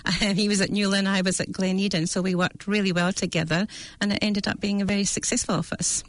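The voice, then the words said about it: Scottish accent. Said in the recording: “your accent ... home is Dundee in Scotland on the east coast”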